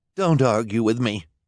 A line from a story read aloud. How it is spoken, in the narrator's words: Esme snapped